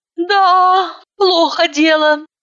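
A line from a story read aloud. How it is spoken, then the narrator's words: Sighing. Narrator (Russian): вздохнула я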